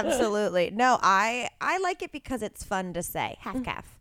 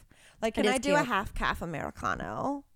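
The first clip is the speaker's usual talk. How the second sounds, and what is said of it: Kardashian-style vocal fry baby voice. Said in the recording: “saying it like a sexy baby ... I was trying to do it like a Kardashian ... vocal fry ... it sounded like when people do sexy baby talk”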